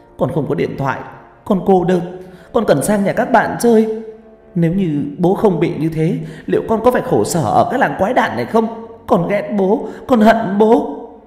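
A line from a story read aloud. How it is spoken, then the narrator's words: Screaming. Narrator (Vietnamese): Tôi gào lên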